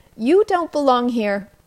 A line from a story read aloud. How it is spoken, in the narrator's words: spoke loudly and firmly